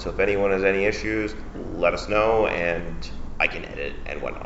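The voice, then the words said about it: Canadian radio announcer voice. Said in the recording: “the best radio announcer voice ... super Canadian radio announcer voice”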